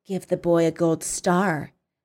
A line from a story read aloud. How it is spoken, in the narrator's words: she said quietly, her eyes narrowing to slits of hatred